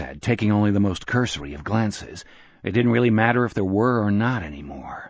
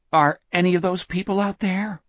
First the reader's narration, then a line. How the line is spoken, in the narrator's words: Richard asked nervously